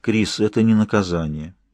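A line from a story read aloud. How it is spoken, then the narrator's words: Soft objection. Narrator (Russian): мягко возразил он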